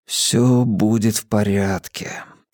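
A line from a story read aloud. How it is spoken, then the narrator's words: Whispered. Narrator (Russian): прошептал я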